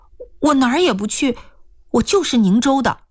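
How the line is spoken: Hurried. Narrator (Chinese): 易青娥急忙说

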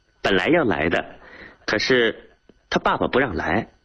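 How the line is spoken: Laughing. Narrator (Chinese): 丽丽笑着 对他说

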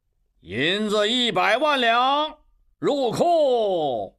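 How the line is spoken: Shout. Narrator (Chinese): 刘小七喊道

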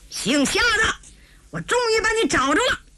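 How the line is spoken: Someone roaring. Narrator (Chinese): 有人大吼一声

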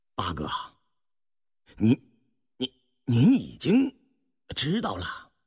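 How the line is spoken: Stammering. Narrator (Chinese): 胤禔方结结巴巴说道

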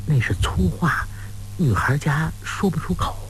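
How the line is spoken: Soft laughing. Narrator (Chinese): 王蓉轻声笑着说

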